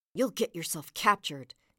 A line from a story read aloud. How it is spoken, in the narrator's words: Usagi said furiously